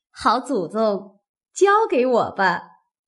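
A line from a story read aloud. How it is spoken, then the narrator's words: Laughing. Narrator (Chinese): 凤姐儿也笑说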